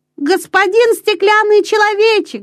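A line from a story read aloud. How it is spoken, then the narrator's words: Shouting. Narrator (Russian): закричал Петер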